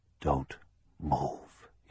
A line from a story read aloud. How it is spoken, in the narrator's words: whispered